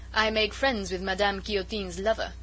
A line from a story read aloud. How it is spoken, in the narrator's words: said with a coarse laugh